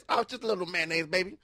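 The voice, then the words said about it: Imitates another person's voice. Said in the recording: “You sounded just like your mom”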